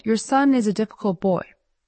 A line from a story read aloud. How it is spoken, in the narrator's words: the schoolmaster sighed